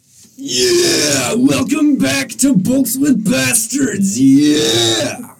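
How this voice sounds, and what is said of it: Loud, excited announcer-style voice. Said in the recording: “give me your excited voice”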